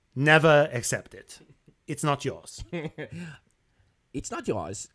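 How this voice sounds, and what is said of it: Put-on German accent. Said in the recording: “all I'm doing is this accent? ... he's German”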